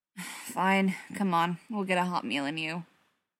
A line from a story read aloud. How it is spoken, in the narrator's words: sighed